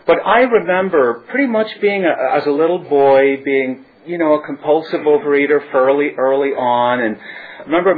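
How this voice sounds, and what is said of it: Northern Irish accent. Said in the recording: “I basically do have a little accent thing going on, so obviously I'm not from Brentwood originally. I was born in Northern Ireland”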